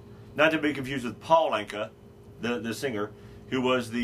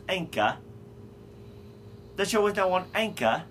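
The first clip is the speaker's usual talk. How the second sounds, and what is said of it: Put-on British accent. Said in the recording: “I get to say Anchor in a British accent, and I like the way it sounds”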